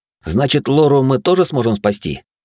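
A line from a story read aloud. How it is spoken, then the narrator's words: Joyful question. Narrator (Russian): радостно спросил я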